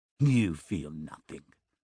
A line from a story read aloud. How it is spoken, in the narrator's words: he hisses into her face